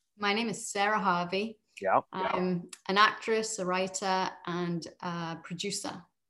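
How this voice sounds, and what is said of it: British Liverpool accent. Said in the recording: “is that a British accent? ... Certainly is. I am from Liverpool”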